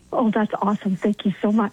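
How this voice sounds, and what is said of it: Whispering. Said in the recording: “Is that why we're whispering?”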